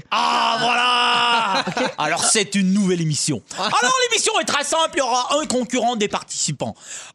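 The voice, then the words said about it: Put-on French radio host accent. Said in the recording (French): “avec ton accent d'animateur radio français”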